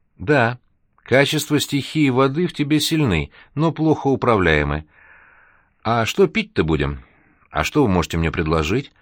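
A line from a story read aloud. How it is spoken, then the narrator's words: Timid, confused question. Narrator (Russian): робко спросил Серега, уже совсем не понимая, о чем говорит бармен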